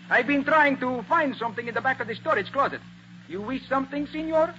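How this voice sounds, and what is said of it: Vague foreign-accented butler voice. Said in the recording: “very much like yours, except that he had a kind of dialect. No particular country, just foreign.”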